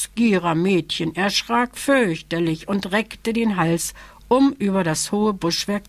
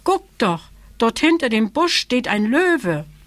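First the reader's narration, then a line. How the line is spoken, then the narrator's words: Young elephant calling. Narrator (German): rief das Elejunge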